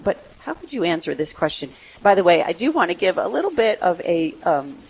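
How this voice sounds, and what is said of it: Sick voice from a cold. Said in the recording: “I am sick... I do have a cold... my voice is a little weird... I just sound terrible”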